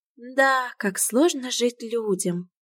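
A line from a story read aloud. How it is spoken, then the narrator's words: Sigh. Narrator (Russian): вздохнула Васька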